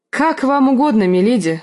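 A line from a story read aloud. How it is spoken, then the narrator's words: Agreeing. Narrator (Russian): согласился Родрик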